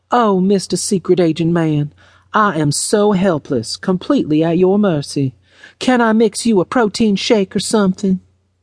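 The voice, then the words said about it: Exaggerated Southern Belle voice. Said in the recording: “in her best Southern Belle voice”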